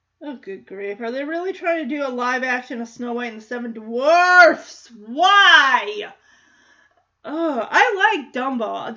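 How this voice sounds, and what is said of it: Loud, shouting into the microphone. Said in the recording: “I'm screaming into the microphone.”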